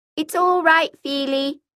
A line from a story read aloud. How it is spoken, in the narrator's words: I called out